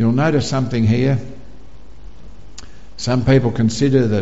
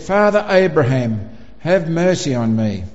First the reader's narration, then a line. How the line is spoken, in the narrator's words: he cried out and he said